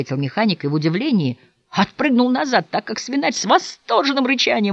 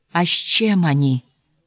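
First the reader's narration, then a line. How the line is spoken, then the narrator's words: Swineherd's trembling question. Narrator (Russian): Дрожащим голосом осведомился свинарь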